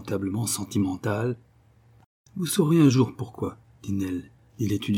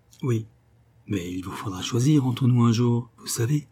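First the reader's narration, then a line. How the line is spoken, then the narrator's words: Gently reproachful. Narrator (French): dit le cousin Sol d'un ton de doux reproche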